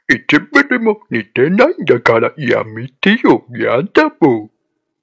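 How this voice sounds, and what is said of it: Cartoon character voice impression. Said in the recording (Japanese): “グーフィーのモノマネ”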